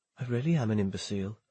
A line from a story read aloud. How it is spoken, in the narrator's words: he muttered